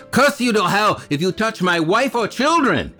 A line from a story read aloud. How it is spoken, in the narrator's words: shouted